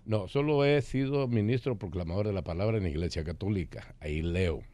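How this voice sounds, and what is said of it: Deep radio announcer-like voice. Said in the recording (Spanish): “él tiene la voz de locutor. ... Ah, tiene voz de locutor.”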